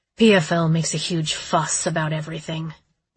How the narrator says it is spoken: Vigo muttered

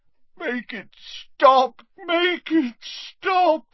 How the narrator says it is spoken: moaned Dumbledore

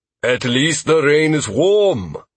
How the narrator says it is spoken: Thorn offered cheerfully

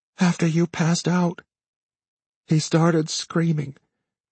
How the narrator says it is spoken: she said flatly

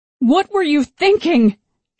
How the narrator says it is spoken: she yelled at him

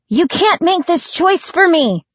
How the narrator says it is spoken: cried Jill

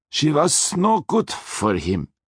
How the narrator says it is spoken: Hector insisted in his menacing Austrian accent

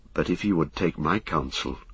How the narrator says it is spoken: said Éomer in a low voice

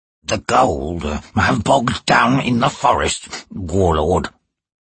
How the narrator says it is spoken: he said in a gravelly voice

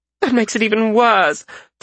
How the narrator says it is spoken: Frisha said with a groan

